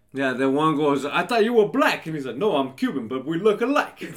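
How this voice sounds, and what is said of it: Put-on Floridian accent. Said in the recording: “What was that accent? ... That's my Floridian accent.”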